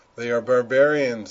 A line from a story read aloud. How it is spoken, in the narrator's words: they cried